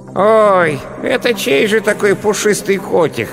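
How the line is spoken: Hoarse small voice nearby. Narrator (Russian): раздался рядом хриплый голосок

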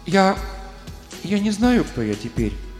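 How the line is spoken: Timid speech. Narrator (Russian): робко проговорила она

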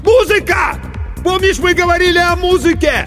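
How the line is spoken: Shout with full force. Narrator (Russian): Иван, что было мочи, крикнул

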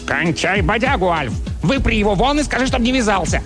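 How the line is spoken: Barked. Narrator (Russian): Чарли рявкнул

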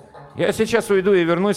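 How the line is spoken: Plain. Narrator (Russian): сказал матрос

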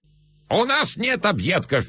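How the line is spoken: Shrill shouting, old man. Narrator (Russian): визгливо кричал старик

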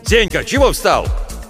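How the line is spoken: Displeased shout. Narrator (Russian): недовольно закричал Владимир Гаврилович

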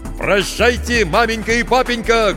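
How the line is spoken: Shouted. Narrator (Russian): крикнул Петр

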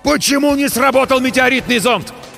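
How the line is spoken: Yelling in unison. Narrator (Russian): В один голос заорали мы

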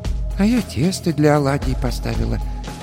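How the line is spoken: Quiet. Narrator (Russian): тихо сказала баба Маша

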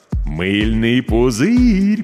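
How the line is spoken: Drawn-out drawl. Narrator (Russian): протянул Миша

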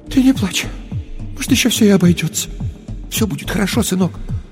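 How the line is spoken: Mother's trembling whisper. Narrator (Russian): Мать прошептала дрожащим голосом

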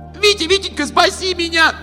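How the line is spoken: Scream. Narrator (Russian): закричала она

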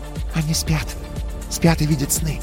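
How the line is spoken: Whispered. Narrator (Russian): прошептала Ри

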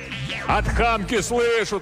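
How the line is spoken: Yelling back. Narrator (Russian): тоже заорал Иван

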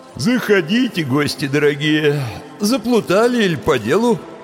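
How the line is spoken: Sleepy grumble. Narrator (Russian): сонно проворчал он

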